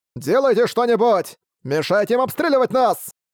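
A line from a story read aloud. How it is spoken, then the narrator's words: Desperate shout, captain. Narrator (Russian): Отчаянно прокричал капитан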